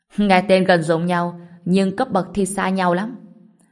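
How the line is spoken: Loud laughing. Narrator (Vietnamese): Kiều Bộ Tiên cười lớn nói

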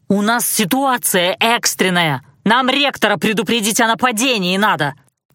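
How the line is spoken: Barked. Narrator (Russian): рявкнул Алан

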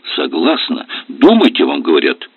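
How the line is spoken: Sharp shout. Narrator (Russian): прикрикнул он

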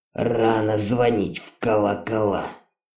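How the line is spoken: Muttered. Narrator (Russian): Пробормотал он

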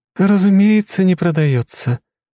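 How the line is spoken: Cooing with theatrical sad sigh. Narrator (Russian): с показательным грустным вздохом проворковала принцесса

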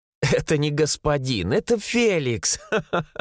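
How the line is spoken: Laughing while eating. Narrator (Russian): рассмеялась Маргарита, откусывая печенье

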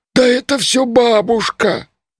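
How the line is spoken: Groaning. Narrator (Russian): простонал Маркула

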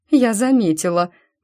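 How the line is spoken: Forced out. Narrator (Russian): выдавила

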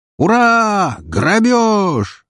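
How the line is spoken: Shouted in unison. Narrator (Russian): разом закричали легионеры

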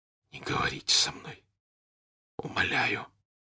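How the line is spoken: Hoarse whisper. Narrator (Russian): хрипло прошептал Пьер

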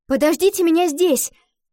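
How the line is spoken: Shouted call. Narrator (Russian): Крикнула она девочкам

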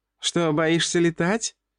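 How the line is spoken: Giggling teasing question. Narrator (Russian): хихикала Женя

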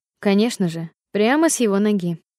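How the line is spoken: Plain. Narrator (Russian): сказал Грейсон

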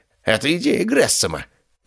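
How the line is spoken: Hoarse, in pain. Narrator (Russian): прохрипел Ливи, держась за сломанный палец

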